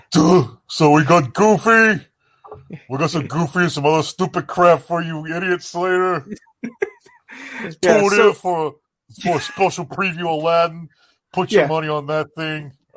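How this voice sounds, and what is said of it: Imitates another person's voice. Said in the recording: “do my Michael and Eisner impression?”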